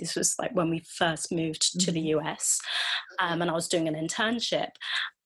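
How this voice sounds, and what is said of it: English accent. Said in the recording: “she heard my accent... a friend of mine who was English as well”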